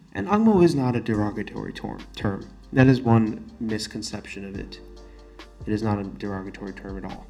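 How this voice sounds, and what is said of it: Non-Singaporean, Western-sounding English accent. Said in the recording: “the accent in which I am speaking to you right now, my accent. It is not a very Singaporean accent. It's not an accent that is common to Singapore”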